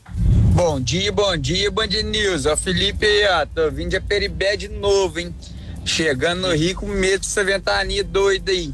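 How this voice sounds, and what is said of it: Charming regional accent. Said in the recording (Portuguese): “que sotaque maravilhoso”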